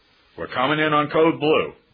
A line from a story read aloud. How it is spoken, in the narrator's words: one barked over the phone, that is, over the radio